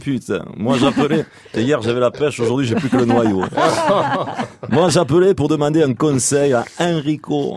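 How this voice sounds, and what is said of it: Imitation with strong southwestern French accent. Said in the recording (French): “Dernier appel qui nous vient du Sud-Ouest ... c'est Francis Cabrel ... il arrivait à répondre sans aucun accent ... à chaque fois que je parle, on a toujours l'impression que je sors de la bergerie du fond du jardin”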